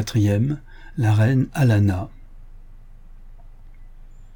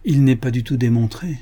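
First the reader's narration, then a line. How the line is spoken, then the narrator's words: Unsteady, doubtful voice. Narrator (French): disait Bill d'une voix mal assurée, car lui-même à ce moment-là ne croyait pas ce qu'il disait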